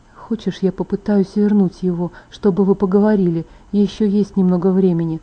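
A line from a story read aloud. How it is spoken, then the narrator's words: Muttered with suppressed anguish. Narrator (Russian): бормотал Эдвард, подавленные страдания звучали в его голосе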